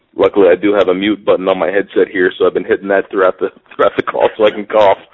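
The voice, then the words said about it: Weird-sounding sick voice. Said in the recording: “I have pneumonia, for anyone that didn't know. That's why my voice is kind of sounding weird.”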